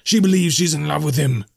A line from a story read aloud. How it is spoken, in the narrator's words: he screamed